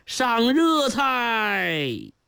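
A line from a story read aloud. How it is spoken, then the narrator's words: Loud relieved shout. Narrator (Chinese): 如释重负的司仪连忙扯起嗓子高喊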